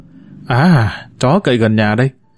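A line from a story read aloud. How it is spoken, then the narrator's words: Muttering. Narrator (Vietnamese): Tôi cột hứng lẩm bẩm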